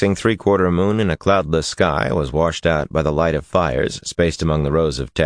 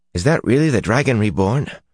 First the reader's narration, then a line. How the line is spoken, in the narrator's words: Alvar asked breathlessly